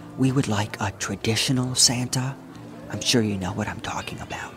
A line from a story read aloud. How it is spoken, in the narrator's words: a woman whispered